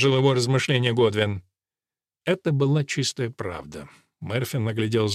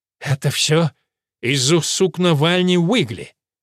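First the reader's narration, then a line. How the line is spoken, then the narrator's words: Disgusted, through clenched teeth. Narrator (Russian): Годвин брезгливо процедил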